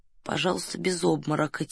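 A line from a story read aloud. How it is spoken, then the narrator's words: Quiet. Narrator (Russian): тихо сказал Фондорин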